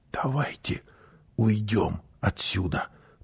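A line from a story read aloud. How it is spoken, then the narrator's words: Whisper. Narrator (Russian): прошептала мама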